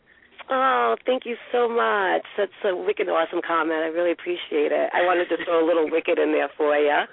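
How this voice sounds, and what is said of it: Rhode Island accent. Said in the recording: “your Portuguese, Providence, new Rhode Island accent”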